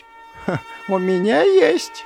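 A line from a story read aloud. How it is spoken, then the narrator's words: Giggling. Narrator (Russian): хихикнула она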